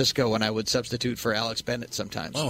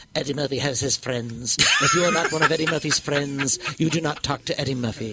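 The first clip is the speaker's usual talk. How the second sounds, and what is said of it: Imitates another person's voice. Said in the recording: “That's a perfect impression... That is a perfect impression of Eartha Kitt”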